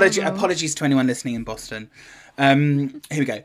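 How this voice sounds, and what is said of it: Usual voice. Nothing is said of it.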